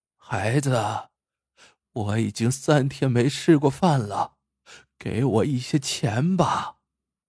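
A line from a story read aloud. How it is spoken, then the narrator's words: Trembling pleading. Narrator (Chinese): 自己的母亲……颤巍巍的……哀求道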